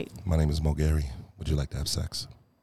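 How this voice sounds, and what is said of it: Deep smooth seductive voice. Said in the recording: “I put my smooth voice on. I put my deep voice on like this. ... The Barry White.”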